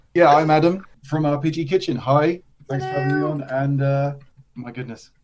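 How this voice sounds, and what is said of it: English accent. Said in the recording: “you sound like you got a little accent there ... it is an English accent ... Cambridge”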